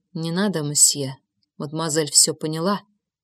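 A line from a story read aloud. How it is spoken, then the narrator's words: Soft whisper. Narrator (Russian): тихо прошептал Жозеф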